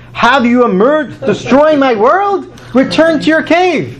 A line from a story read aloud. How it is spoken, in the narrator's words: a heavenly echo came forth and cried